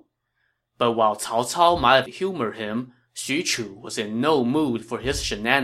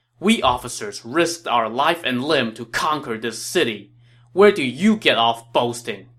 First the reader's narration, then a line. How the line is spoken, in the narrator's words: said angrily